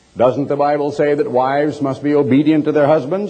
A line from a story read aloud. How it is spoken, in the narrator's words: asked